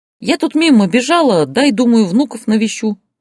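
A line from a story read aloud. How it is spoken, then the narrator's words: Joyful mother. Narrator (Russian): радостно сказала мама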